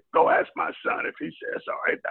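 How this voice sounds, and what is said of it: Imitates another person's voice. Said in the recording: “that's a great impression”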